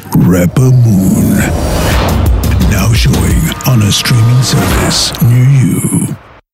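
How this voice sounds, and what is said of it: Exaggerated deep announcer voice. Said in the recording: “Mr. Deep Voice”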